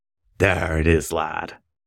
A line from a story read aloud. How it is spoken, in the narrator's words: Tookie whispered into his ear